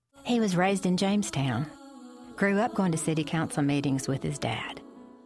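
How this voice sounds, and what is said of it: Pronounced Southern accent. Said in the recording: “the voice over there has a pretty pronounced Southern accent.”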